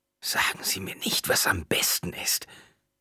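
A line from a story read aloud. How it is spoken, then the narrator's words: Croaking female voice. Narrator (German): krächzte sie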